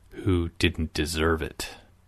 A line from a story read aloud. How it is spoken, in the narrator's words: Salim growled